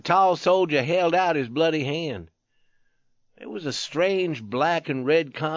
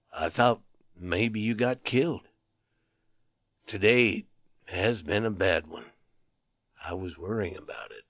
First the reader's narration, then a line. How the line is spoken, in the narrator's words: He continued in a dull voice